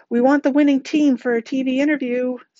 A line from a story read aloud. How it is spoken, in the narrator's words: someone else called out